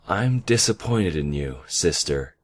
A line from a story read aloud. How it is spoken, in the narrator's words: the white alicorn said sadly